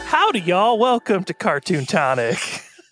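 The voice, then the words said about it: Put-on folksy accent. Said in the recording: “Look at you in that accent.”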